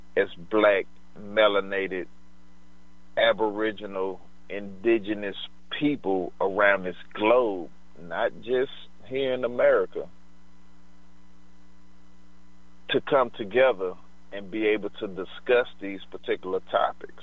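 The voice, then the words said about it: Slow-talking speaker with strong dialect. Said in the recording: “I know I'm slow talking. I know my dialect is kind of screwed”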